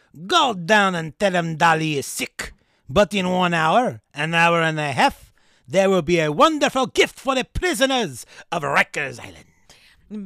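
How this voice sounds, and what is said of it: Poor attempted Spanish, sounds French. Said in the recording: “read this in your best Spanish accent ... This is not a Spanish accent. This is not what Dalí sounded like ... It's French, isn't it? I can't do Spanish. I can do bad Italian and bad French”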